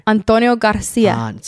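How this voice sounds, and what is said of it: Poor put-on Hispanic accent. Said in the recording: “you did a Hispanic accent right there? ... It's terrible.”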